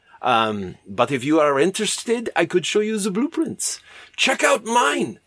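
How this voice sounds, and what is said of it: Put-on German accent. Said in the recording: “I don't know why I'm doing a German accent for a Frenchman.”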